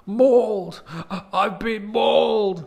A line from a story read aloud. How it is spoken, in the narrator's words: cries